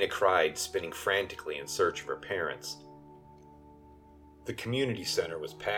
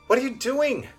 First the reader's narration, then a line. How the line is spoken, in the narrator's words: Elena wailed